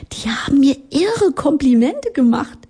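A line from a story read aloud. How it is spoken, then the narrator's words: Giggling. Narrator (German): sie kicherte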